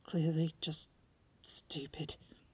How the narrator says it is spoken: he mumbled under his breath

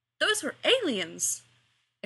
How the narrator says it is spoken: exclaimed Giles

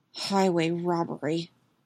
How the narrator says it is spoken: murmured Steve

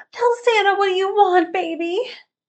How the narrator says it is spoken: his wife yells

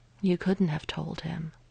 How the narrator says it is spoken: Natasha said quietly

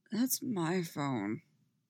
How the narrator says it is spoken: Styles grumbles

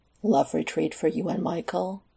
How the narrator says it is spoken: Alex scoffed

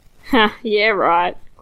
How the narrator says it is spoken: Clifton scoffs

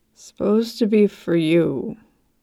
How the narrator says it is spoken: The man mumbled

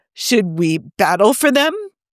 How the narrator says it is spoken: Thor asked excitedly

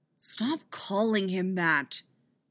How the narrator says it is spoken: Jason grumbles

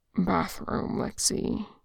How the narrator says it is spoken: he murmurs, apologetic

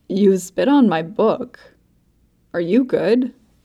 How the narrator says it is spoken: Buck whines

